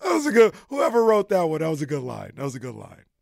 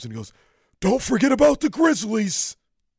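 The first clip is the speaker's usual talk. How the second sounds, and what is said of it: Impression of Draymond Green. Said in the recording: “a Draymond impression”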